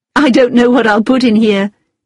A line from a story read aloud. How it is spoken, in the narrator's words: said with a laugh